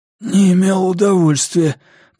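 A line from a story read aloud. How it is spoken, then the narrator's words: Hoarse croak. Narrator (Russian): прохрипел Цицеро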